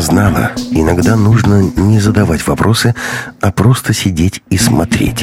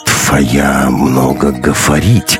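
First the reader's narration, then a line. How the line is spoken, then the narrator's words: Disapproving grumble. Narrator (Russian): неодобрительно проворчал Уф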